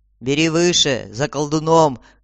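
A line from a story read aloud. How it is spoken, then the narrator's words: Plain. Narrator (Russian): ответил вожак отряда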